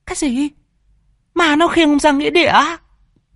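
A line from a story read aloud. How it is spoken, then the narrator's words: Terrified shriek. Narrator (Vietnamese): Mụ vợ hét lên kinh hãi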